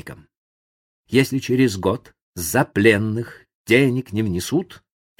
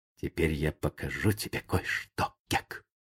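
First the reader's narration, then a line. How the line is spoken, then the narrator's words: Whisper. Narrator (Russian): Том прошептал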